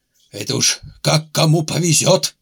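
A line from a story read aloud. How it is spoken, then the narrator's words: Booming drone. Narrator (Russian): прогудел критик Обобков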